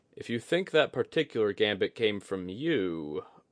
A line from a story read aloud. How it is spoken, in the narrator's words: Oguri chuckled